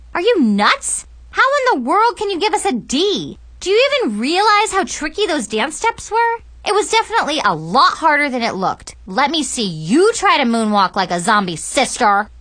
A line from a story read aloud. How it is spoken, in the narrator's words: I screamed at my teacher